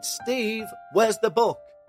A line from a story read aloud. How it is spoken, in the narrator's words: She shouted